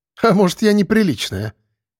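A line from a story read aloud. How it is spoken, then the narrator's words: Chuckling laugh. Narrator (Russian): хохотнула следачка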